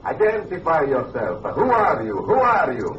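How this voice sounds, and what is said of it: Italian accent. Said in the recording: “That's an Italian accent.”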